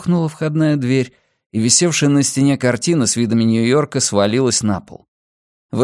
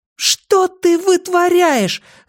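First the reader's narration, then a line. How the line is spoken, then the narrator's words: Yelling after someone. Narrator (Russian): завопила вслед ему Бакстер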